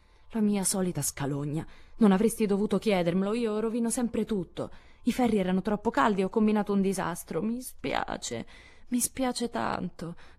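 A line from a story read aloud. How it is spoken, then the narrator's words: Despairing, tearful moan. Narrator (Italian): gemette a sua volta Joe, guardando le nere frittelle con lacrime di disperazione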